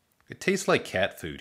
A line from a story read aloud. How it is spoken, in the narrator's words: he said